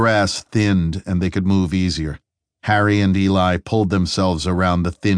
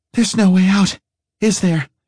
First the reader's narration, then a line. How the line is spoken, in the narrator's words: panted